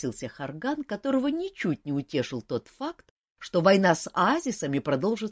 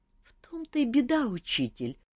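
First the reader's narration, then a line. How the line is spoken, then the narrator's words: Sighing. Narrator (Russian): вздохнул Харган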